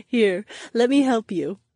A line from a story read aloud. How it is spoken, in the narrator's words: Daisy giggled